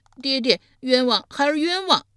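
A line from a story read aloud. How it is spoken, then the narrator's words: Loud cry. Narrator (Chinese): 申生大声呼道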